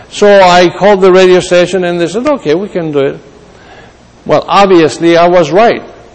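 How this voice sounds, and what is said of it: Accented, slow speech. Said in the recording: “I do have an accent, and I'm slow sometimes”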